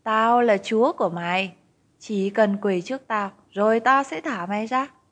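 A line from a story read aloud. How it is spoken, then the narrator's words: Sarcastic. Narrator (Vietnamese): Anh ta nói giọng mỉa mai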